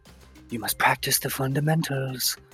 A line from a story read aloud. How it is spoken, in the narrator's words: I whisper